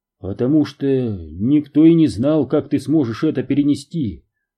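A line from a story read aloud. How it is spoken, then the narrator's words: Plain. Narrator (Russian): ответил Эймос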